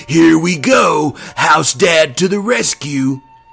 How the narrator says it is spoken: Siegel yelling

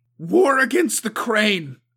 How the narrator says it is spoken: Suko repeated, the harshness of her voice slamming into the others as though to batter them into submission

